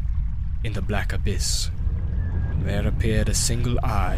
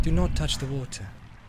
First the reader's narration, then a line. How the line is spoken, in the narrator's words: said the Lady Galadriel softly